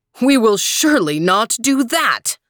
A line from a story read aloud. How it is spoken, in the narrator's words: roared the emperor